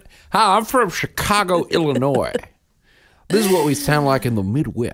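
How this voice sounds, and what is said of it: Exaggerated Chicago Midwestern accent. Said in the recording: “is this your Chicago accent?”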